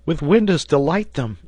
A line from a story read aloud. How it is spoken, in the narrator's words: said Herbert, laughing